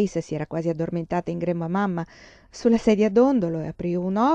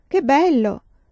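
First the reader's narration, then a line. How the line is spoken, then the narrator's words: Exclaimed. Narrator (Italian): esclamò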